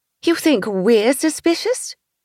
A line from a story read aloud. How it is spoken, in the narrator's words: She scoffed again